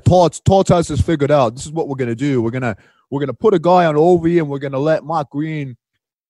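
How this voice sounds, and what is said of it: Boston accent impression. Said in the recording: “It's my Boston accent right there.”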